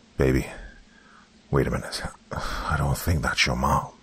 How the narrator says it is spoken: Malcolm told his daughter through a steady whisper

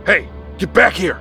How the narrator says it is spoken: he yelled

